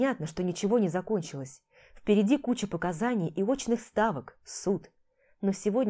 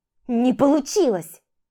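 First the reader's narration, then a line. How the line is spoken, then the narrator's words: Angry exhale. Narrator (Russian): Она зло выдохнула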